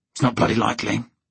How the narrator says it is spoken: he said harshly

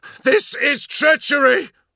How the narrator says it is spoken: bellowed the captain of the Emperor's children, desperation filling his voice

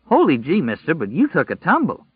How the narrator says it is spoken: Tom Cullen exclaimed

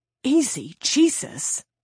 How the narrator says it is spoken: he hissed

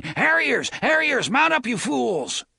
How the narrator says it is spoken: Somewhere someone was shouting

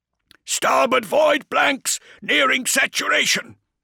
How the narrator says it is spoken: said Waylon Kale, not shouting, never shouting, but terminally close

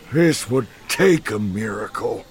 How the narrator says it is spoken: the foreman grumbled

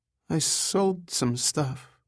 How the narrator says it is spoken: she said in a timid voice

